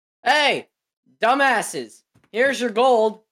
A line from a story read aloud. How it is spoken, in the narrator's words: Guard in the watchtower yells